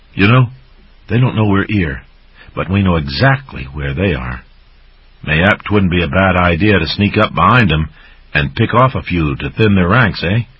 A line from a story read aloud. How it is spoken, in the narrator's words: Logalog sighed regretfully